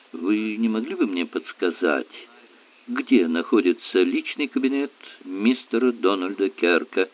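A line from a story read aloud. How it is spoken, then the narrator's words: Timid question, plump man. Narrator (Russian): Робко поинтересовался упитанный мужчина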